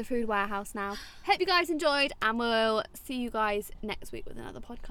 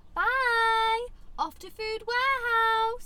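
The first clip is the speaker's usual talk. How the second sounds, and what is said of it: Sing-song voice. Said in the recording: “You literally always say it in a singing voice.”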